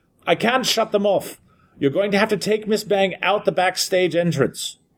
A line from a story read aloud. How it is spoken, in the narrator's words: I could barely hear him as he yelled